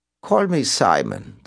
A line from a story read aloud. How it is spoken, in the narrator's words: the voice replied